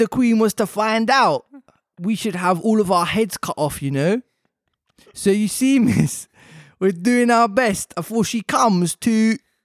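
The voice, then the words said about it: Reads a character with put-on accent. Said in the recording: “even some of the grammar that's been used fits the accent.”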